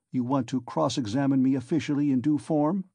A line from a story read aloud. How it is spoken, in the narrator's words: Raskolnikov asked sharply